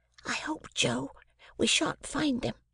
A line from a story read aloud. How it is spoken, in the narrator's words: I treasonably whispered to Joe